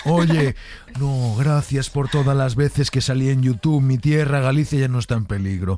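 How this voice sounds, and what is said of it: Imitates another person's voice. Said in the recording (Spanish): “Entro con un personaje”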